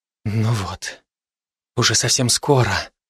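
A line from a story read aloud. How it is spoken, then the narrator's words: Whisper. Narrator (Russian): прошептала Акулина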